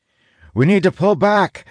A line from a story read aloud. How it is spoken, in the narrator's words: I shout